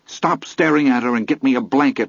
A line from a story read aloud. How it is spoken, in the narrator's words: I snapped at him